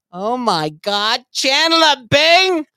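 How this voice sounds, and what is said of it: Impression of Janice from Friends. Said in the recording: “Chandler Bing's girlfriend, Janice ... that was a pretty good impersonation”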